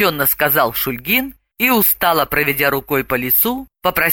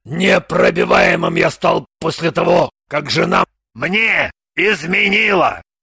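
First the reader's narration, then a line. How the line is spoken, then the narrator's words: Through clenched teeth. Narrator (Russian): процедил сквозь зубы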